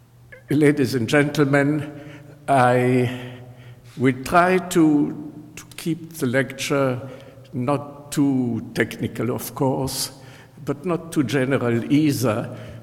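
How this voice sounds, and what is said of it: Mixed French Hebrew German accent. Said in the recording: “my accent, which is a mixture of French, Hebrew, German, and whatever”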